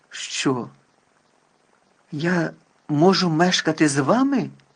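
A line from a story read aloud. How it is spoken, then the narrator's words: Exclamation. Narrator (Ukrainian): вигукнув він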